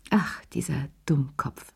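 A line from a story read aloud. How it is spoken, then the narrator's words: Sighing. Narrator (German): seufzte sie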